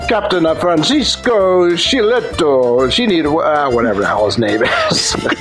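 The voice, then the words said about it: Put-on Italian accent. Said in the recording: “I got to put on my Italian accent.”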